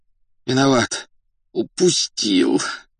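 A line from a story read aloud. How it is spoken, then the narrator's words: Muffled groan. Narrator (Russian): глухо простонал он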